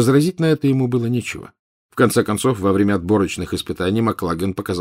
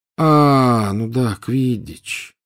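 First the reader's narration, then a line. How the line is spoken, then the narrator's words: Tired drawl. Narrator (Russian): протянул он, устало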